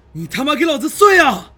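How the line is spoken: Straining hoarse roar. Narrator (Chinese): 我使尽浑身的力气，对着纹丝不动的防护罩嘶吼着

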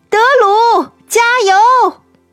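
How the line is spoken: Crowd cheering loudly. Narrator (Chinese): 场外观众们大声呼喊

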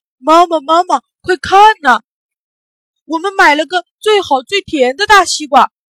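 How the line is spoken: Shouting. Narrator (Chinese): 大懒也喊

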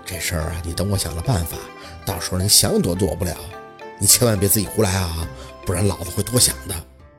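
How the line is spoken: Hurried low voice. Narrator (Chinese): 抓紧时间一般的低声来了一句

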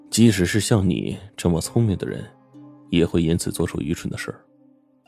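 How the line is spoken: Flat, indifferent. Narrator (Chinese): 卢斯里淡淡的说

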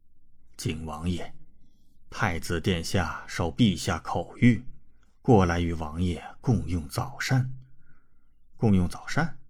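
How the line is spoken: Smiling old eunuch. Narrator (Chinese): 林公公……笑着说道

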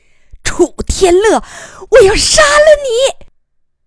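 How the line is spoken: Alarmed cry. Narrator (Chinese): 天乐妈惊呼一声

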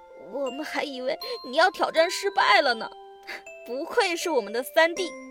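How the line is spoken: Excited, choked up. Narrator (Chinese): 炒栗子和煮栗子激动得有些哽咽地说

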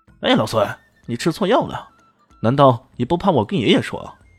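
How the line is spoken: Shouting. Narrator (Chinese): 他忍不住大喊道

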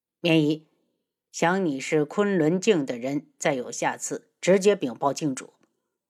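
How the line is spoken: Cold. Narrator (Chinese): 昆仑卫冷声道

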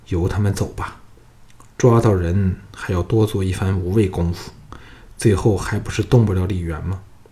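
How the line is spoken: Plain. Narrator (Chinese): 藤义说

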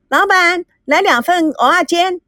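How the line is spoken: Calling out. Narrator (Chinese): 赵美娇喊道

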